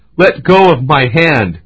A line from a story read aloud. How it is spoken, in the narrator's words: The boy cried